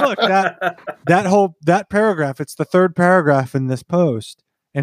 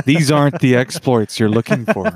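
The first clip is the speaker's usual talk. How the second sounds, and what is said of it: Obi-Wan Kenobi impression. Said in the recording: “best Obi Wan Kenobi impression”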